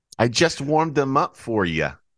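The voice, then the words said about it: Put-on Brooklyn New York accent. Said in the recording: “What is this, Brooklyn, New York? ... Accent?”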